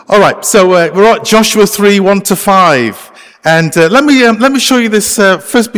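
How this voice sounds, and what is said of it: British English accent. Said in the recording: “I can't speak Canadian, okay? So hopefully you're okay with my accent. I'm actually from the UK. ... still have my accent.”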